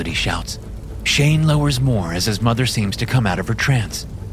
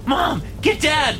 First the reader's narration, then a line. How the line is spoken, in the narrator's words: Melody shouts